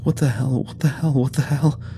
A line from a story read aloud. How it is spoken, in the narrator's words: was wheezing a new mantra somewhere behind us